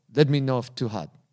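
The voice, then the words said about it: Attempted Thai accent sounding Russian. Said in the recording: “she's got a Russian accent this time. ... Is that Russian? I don't know how to do a Thai accent.”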